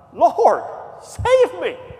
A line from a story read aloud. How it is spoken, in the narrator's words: he cried